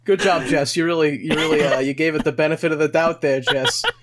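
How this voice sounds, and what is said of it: Put-on Boston accent. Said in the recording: “You're really pulling out your Bostonite tonight. ... that accent you got there. ... I do more of a Boston than a New York”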